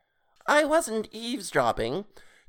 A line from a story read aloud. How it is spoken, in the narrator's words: Toadface said in a high nasal voice